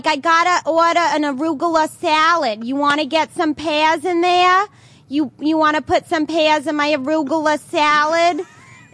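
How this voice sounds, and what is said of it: Exaggerated Long Island accent. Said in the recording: “I could do very exaggerated. Oh, I could do a New York. I could do a Long Island accent.”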